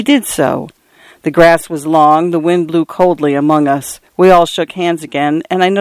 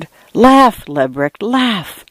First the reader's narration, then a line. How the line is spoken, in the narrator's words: I whispered